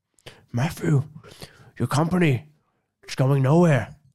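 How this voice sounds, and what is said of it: Poor impression of another person's voice. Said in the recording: “my Christopher Walken impression ... So bad. ... That's so bad. ... You sound more like Idris Elba.”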